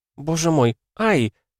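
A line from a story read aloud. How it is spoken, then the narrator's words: Moaning. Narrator (Russian): застонала Ариния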